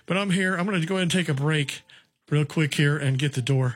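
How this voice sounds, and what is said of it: Slightly out of breath. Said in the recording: “I'm a little out of breath from running down here in a hurry.”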